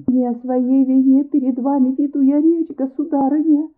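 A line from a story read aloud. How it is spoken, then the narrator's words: Humble voice. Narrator (Russian): Смиренным голосом произнесла камеристка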